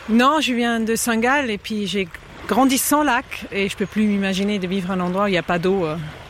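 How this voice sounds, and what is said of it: Slight foreign accent in French. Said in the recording (French): “j'entends un petit accent, donc vous n'êtes pas de Lausanne”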